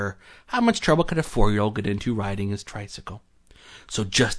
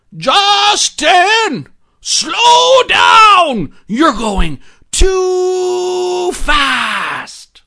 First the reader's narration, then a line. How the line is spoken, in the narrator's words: he yelled out